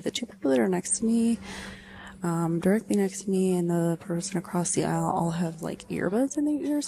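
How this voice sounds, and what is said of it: Close-mic whisper, talking fast. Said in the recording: “whispering, but my mouth is really close to the microphone, so it probably sounds really gross, but I'm talking really fast”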